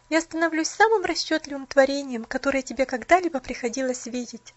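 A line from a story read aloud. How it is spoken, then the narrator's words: Bitter laughter. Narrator (Russian): Горестно смеялась она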